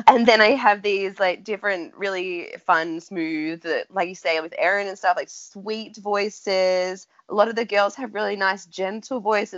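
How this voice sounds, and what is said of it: Nasal, congested voice with accent. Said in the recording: “right now I have a cold... So I'm even more nasal than my accent already is... we all love your accent. One of the bonuses of listening to your podcast is your accent.”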